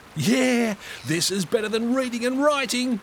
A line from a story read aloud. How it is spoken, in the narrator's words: he yelled back